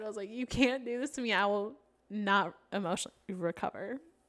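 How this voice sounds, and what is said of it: Voice catching in throat. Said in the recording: “My throat just got, my voice just got caught in my throat ... That sounded so funny in the headphones.”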